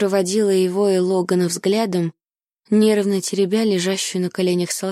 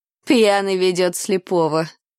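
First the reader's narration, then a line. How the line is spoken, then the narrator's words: Laughing. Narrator (Russian): засмеялся Дикон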